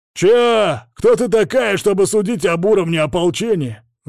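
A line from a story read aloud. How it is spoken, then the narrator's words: Yelling through visor. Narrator (Russian): заорал на меня сквозь мифриловое забрало лидер подошедшего патруля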